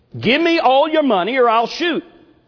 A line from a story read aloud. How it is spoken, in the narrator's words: shouted out